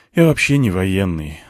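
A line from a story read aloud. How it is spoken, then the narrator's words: Sighing. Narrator (Russian): вздохнул я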